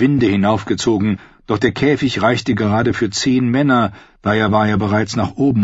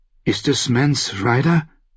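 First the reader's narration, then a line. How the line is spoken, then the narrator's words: Fearful question. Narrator (German): fragte Satan ängstlich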